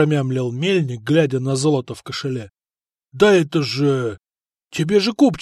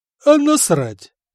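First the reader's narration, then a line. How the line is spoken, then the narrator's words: Cheerful young man. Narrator (Russian): весело сказал странный парень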